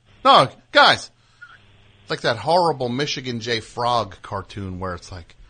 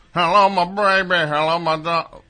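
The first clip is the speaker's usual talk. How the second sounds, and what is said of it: Impression of a cartoon frog singing. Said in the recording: “That's a pretty good Michigan J. Frog impersonation”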